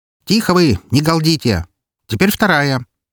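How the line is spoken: Sharp shout. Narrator (Russian): прикрикнула Валькирия

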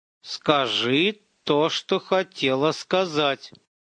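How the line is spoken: Through gritted teeth. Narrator (Russian): Руслан говорил сквозь зубы

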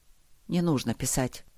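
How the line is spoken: Quiet. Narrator (Russian): сказал он тихо

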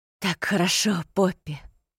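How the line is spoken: Moaning. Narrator (Russian): простонал Рин

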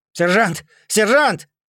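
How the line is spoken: Shouted. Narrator (Russian): крикнул оставшийся в живых Мирош

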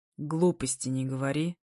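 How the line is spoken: Through gritted teeth. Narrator (Russian): цедит сквозь зубы

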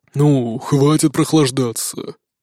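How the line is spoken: Grumbled. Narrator (Russian): проворчал Нуки

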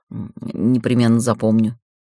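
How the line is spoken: Mutter. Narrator (Russian): Бритоголовый пробормотал

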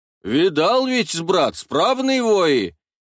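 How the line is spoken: Drunken-voiced reply. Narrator (Russian): Не менее хмельным голосом отвечал Таруша

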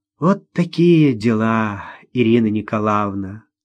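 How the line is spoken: Drawled. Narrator (Russian): протянула директриса

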